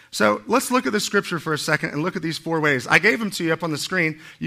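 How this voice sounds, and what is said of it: Slightly hoarse, strained voice. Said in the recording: “I'm kind of losing my voice just a little.”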